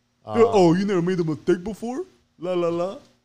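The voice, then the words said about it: Imitates another person's voice. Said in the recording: “Whose voice are you imitating? ... You.”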